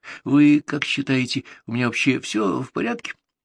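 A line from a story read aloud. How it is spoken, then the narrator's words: Timid question. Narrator (Russian): Игорь спрашивал у нее робко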